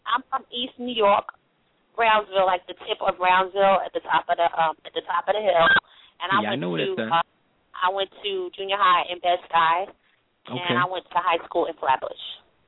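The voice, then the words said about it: Brooklyn accent. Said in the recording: “your Brooklyn accent”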